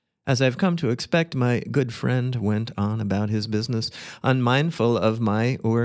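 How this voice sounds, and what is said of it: Usual voice. Nothing is said of it.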